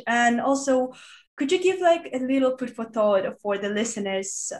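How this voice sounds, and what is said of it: Voice sounds ill. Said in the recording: “sorry for my voice. ... I've just been ill for the past week.”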